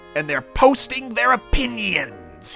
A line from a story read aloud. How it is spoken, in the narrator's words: snarled with a sneer